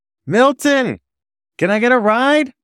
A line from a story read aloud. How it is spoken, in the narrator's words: Behind me, a skunk in an apron and visor … shouting